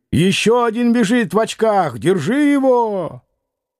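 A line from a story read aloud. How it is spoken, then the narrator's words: Woman shouting. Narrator (Russian): женский голос крикнул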